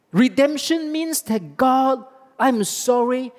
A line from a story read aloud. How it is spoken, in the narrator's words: I cried out to you